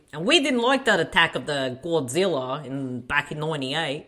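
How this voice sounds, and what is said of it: Put-on New York accent. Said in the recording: “I don't know what accent I'm doing.”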